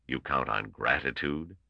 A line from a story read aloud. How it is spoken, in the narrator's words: asked Gorov coldly